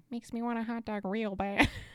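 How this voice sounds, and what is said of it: Imitates another person's voice. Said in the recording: “that impression ... That was no good. On my end.”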